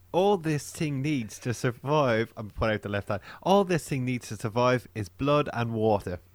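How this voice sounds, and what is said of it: Put-on Irish accent. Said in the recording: “do I sound like an English person doing an Irish accent? ... it's very close, the Scottish”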